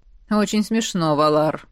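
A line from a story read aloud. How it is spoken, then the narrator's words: Gloomy mutter turning to baby-talk. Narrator (Russian): пробормотал мужчина хмуро и вдруг неожиданно для такого большого и грозного типа засюсюкал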